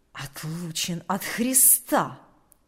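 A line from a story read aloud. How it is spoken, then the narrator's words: Quiet hissing voice. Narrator (Russian): сказал тихим, шипящим голосом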